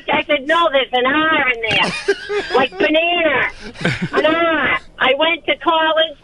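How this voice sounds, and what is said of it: Boston accent. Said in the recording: “You don't think you have a Boston accent ... I'm just so used to hearing this accent”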